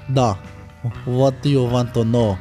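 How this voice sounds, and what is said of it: Put-on Russian accent. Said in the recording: “He's got a good Russian accent.”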